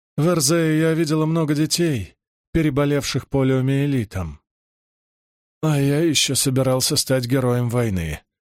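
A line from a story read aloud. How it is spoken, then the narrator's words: Sad joking. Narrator (Russian): грустно пошутил Гуго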